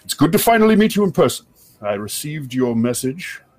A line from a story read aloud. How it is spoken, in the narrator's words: his voice kind of booms out across the uh, the second floor, and he says